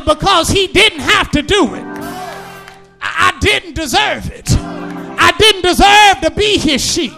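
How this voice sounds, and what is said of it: Shouting preacher. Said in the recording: “I'm shouting. I'm shouting”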